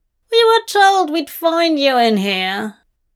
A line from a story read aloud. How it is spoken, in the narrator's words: a frighteningly familiar voice says